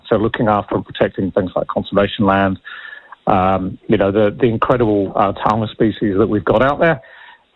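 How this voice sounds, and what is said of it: English Midlands accent. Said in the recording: “you can probably tell from my accent. ... I was born in Worcester in England. ... Birmingham's my kind of home patch.”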